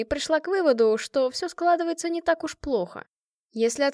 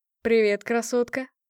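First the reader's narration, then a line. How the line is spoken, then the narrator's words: Smirking. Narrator (Russian): хмыкнул один из них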